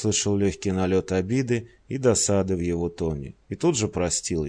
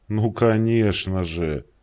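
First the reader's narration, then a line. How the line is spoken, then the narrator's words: Groaning. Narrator (Russian): простонал Холмс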